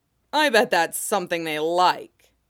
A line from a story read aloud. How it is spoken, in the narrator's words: Jingguangshan scoffed